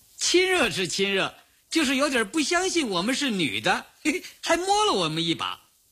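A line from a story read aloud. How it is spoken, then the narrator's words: Laughing. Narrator (Chinese): 刘英笑着说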